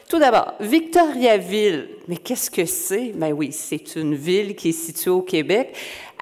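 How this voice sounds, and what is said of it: Québécois French accent. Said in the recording (French): “mon accent québécois”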